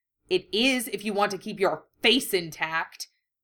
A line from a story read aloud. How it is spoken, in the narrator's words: Harry growled